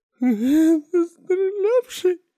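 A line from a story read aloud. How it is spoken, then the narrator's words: Whimpering. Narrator (Russian): захныкал кто-то позади меня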